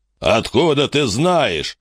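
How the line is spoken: Laughing loudly. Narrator (Russian): расхохотался Большой Рог

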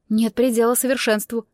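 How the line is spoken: Grumbling. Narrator (Russian): проворчала

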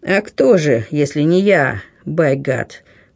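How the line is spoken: Grumbled. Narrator (Russian): пробурчал чей-то голос

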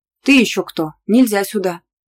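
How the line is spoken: Shout. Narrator (Russian): Не в силах справиться с громадной женщиной, Славик выкрикнул

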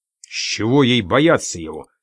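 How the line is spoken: Angry. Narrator (Russian): сердито нахмурился Дик

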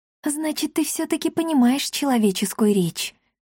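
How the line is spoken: Whispered. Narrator (Russian): прошептала

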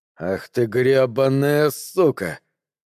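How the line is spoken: Through gritted teeth. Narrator (Russian): процедил Лэндрон

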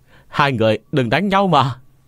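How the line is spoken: Child crying out loudly. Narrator (Vietnamese): thằng nhóc lớn tiếng kêu to

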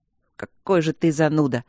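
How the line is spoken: Grumbled. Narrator (Russian): буркнул Мартин

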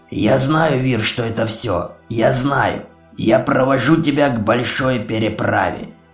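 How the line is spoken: Hoarse croak. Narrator (Russian): прохрипел Ури

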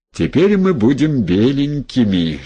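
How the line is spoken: Laughing. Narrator (Russian): смеялся Демид

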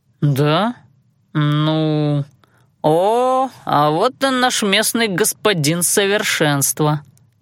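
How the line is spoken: Drawling interruption. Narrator (Russian): перебивая его, протянул Танаан

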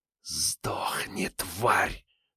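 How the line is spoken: Hissed, voice unrecognizable. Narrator (Russian): прошипела она, не узнавая собственный голос

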